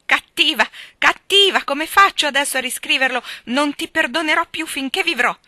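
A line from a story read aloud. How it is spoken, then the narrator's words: Furious shouting. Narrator (Italian): le gridava furente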